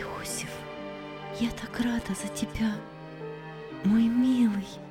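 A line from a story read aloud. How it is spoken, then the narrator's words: Whispered. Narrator (Russian): шепнула ему мать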